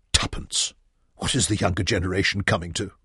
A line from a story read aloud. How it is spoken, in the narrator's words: Penrod grumbled